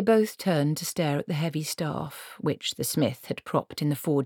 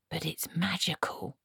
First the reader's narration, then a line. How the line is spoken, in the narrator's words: he whispered